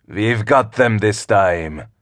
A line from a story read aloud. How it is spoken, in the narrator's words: sneered the captain of the other ship, Avark's vessel